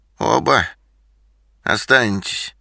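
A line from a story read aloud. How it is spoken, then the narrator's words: Creaky questioning voice. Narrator (Russian): спросила Макариха скрипучим голосом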